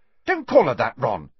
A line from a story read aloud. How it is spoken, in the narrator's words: snapped Ginny